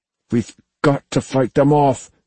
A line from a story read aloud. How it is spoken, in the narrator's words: Sophie said through gritted teeth